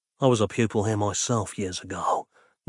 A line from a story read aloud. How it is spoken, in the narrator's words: Nick whispered, shaking his head forlornly